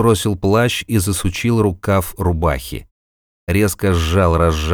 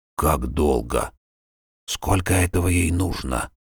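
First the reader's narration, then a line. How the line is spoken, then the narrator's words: Whisper. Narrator (Russian): прошептал Арнольд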